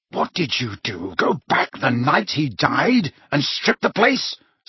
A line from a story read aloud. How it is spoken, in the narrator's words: snarled Harry